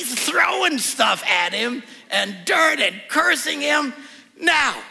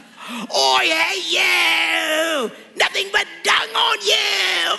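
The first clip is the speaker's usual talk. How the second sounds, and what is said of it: Comic put-on British accent. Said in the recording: “these guys all have British accents. ... like a scene out of a Monty Python movie”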